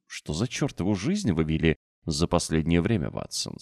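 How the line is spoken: Plain. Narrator (Russian): спросил

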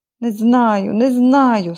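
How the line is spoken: Moaning. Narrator (Ukrainian): стогнала Ненсі

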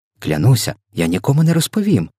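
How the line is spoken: Exclaimed. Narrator (Ukrainian): вигукнула Софія

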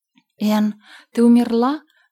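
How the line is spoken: Sudden cry. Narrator (Russian): скрикнула Диана

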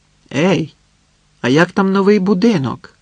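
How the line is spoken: Shouted after her. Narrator (Ukrainian): крикнула Ніна їй услід

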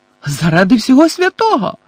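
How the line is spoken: Woman's shriek. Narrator (Ukrainian): заверещала місіс Візлі

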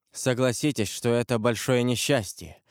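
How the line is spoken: Dull hollow voice. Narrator (Russian): сказал он глухим голосом

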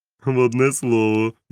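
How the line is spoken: Laughing. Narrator (Ukrainian): засміявся доктор Лівсі

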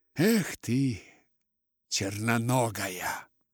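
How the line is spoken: Muttered through gritted teeth. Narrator (Russian): проговорив сквозь зубы

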